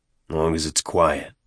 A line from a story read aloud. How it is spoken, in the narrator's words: Avery muttered